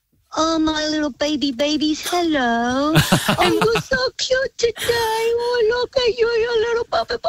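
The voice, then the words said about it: Baby voice. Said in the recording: “talk to us in a baby voice”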